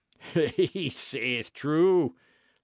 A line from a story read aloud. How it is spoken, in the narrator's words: laughed Pirret